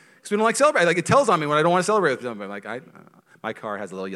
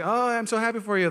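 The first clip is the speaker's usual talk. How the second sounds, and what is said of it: Fake cheerful high-pitched voice. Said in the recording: “High voice tells on you. Do not do the high voice. Just do anything but the high voice. ... why am I saying high voice?”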